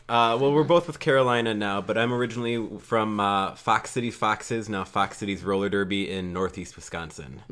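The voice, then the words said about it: Mild Wisconsin regional accent. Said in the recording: “That explains the accent a little bit... I'm not that bad. No, I'm not Fargo.”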